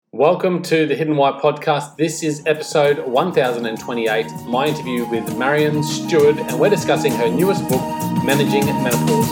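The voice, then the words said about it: Australian accent. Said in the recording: “I absolutely adore Australia, so it's great to hear your accent. Makes me miss Australia.”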